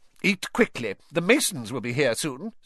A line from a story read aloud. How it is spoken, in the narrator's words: snapped Aunt Petunia